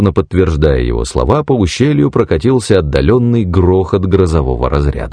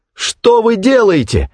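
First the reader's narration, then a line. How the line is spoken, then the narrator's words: Exclaimed. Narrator (Russian): воскликнула она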